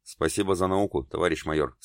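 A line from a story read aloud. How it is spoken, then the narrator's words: Plain. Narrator (Russian): сказал он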